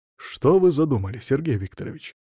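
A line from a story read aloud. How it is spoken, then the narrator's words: Insinuating. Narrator (Russian): вкрадчиво произнес он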